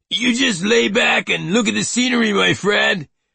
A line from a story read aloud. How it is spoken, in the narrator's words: the driver shouted over the muffler noise